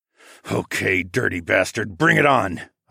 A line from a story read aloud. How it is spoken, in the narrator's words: I muttered